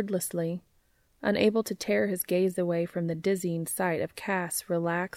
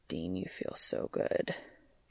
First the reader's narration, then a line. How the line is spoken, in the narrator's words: Cass murmured